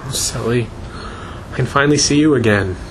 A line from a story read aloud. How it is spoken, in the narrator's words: she sobbed